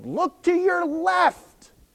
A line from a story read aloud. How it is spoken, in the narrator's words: this one student yelled